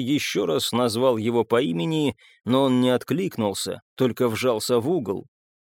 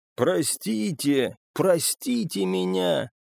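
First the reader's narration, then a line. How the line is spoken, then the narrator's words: Hoarse rasp. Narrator (Russian): Он прохрипел это и качнулся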